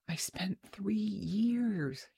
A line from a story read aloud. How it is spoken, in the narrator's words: whispered